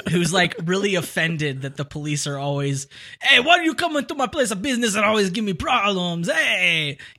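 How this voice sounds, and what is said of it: Put-on foreign crime lord accent. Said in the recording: “I like how you as a crime lord has an Italian accent... I don't know if it's Italian. I think it's Hungarian is what I'm doing... Greedo”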